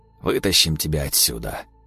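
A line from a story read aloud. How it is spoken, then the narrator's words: Weary trembling voice. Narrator (Russian): Устало дрожал его голос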